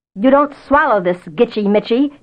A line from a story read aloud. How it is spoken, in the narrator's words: he kept roaring across to Absol